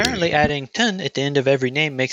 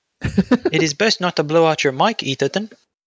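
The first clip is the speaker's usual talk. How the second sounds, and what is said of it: Put-on British accent. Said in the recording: “accents ... makes it sound more British”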